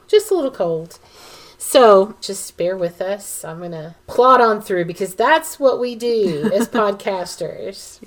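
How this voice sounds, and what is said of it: Raspy, froggy voice. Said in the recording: “my voice sounds a little raspy, a little froggy... losing my voice”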